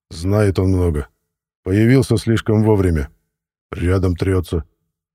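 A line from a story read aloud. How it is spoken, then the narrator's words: Dry. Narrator (Russian): сухо добавил он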